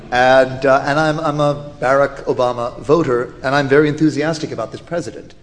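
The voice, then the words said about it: American accent. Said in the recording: “If my accent hasn't already given me away, I am an American.”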